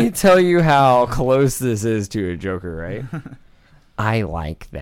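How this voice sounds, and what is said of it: Usual voice. Nothing is said of it.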